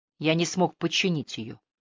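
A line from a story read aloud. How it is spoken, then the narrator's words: Quiet, to himself. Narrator (Russian): тихо сказал он, словно пояснял что-то скорее себе, чем Хелен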